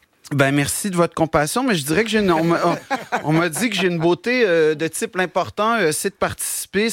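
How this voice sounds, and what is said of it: Quebec French accent. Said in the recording (French): “j'ai un accent ... l'accent québécois”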